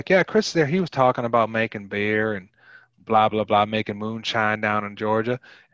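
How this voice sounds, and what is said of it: Poor put-on Southern US accent. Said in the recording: “my Southern accent is horrible, but it might be better than Nicolas Cage's”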